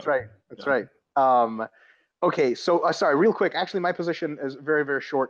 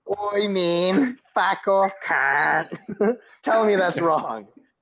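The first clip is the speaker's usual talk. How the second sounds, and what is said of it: Put-on Australian accent. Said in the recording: “that was an Australian accent ... Was that an Australian accent? ... Tell me that's not Australian.”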